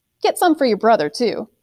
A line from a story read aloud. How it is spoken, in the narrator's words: she laughed